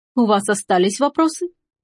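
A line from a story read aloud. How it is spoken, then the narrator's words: Laughing. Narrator (Russian): Дюваль рассмеялся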